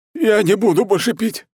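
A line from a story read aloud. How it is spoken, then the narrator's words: Babbling. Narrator (Russian): лепетал он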